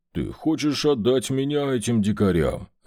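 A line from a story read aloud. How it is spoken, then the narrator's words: Growl. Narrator (Russian): рыкнул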